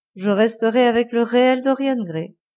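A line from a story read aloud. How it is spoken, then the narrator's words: Sad. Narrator (French): dit-il tristement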